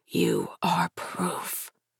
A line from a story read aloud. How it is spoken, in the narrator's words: whispers